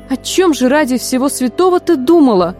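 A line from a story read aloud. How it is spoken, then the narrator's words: Startled exclamation. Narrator (Russian): воскликнула Фанни, увидев, с чем вернулась Вениша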